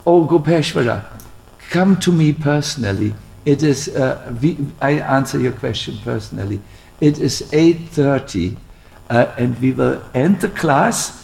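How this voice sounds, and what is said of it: German accent in English. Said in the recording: “the German accent”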